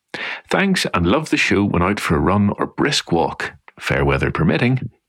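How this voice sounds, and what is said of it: Irish accent. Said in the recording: “you can't beat that Irish accent, though. It's absolutely enchanting.”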